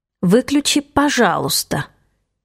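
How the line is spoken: Through gritted teeth. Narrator (Russian): добавляю я сквозь зубы

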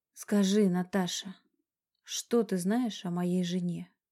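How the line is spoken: Quiet. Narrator (Russian): Тихо произнес он

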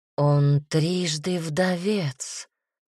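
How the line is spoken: Old woman groaning. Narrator (Russian): застонала бабка

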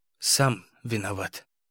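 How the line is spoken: Sleepy mutter. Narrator (Russian): пробормотал Игорь, засыпая

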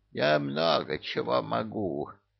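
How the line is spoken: Creaky old voice. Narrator (Russian): проскрипел заслуженный адский пенсионер

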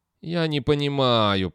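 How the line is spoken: Moaning. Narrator (Russian): простонал Стин

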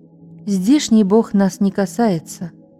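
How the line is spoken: Plain. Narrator (Russian): сказал второй наемник

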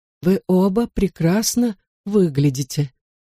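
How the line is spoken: Slightly trembling voice. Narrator (Russian): наконец проговорила она чуть дрожащим голосом

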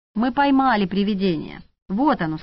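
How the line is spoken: Plain. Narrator (Russian): сказала Шура

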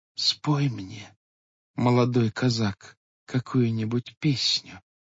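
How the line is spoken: Quiet speech. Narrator (Russian): тихо молвила

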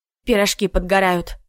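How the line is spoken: Grumbling. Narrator (Russian): буркнула Надка

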